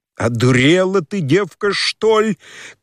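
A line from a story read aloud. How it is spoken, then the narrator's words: Shouted with sudden anger. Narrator (Russian): крикнул он, с внезапную злобою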